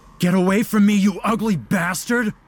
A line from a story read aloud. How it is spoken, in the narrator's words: Baptiste shouted